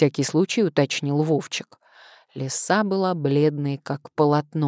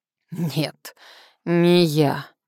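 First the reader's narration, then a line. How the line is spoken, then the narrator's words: Hoarse wheeze. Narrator (Russian): прохрипела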